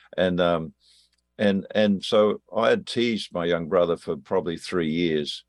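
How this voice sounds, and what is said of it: Australian accent. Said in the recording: “If you're wondering what the accent is, I'm an Australian.”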